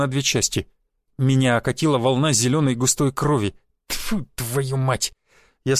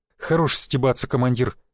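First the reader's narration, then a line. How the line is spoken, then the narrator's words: Through gritted teeth. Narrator (Russian): процедил Виталик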